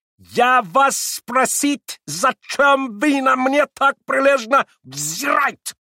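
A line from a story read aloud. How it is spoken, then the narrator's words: Furious shouting. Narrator (Russian): прокричал он с удвоенной яростью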